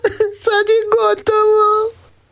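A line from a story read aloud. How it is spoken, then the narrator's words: Crying. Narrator (Croatian): Marica je plakala i reče Ivici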